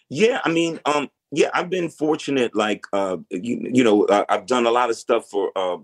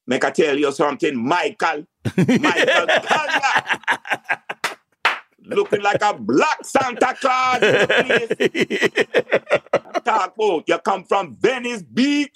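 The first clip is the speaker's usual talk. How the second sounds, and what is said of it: Put-on Jamaican accent. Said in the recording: “my family's Jamaican. So, you know, when people need a Jamaican accent ... let me hear your Jamaican accent”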